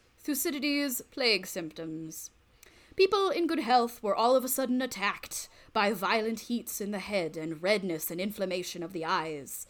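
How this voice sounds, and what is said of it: Scholarly BBC-style British voice. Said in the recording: “a scholarly... BBC voice. The BBC. All right, we're doing the BBC voice.”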